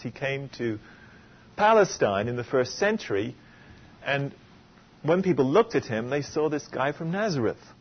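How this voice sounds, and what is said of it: English accent. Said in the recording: “my accent is still English”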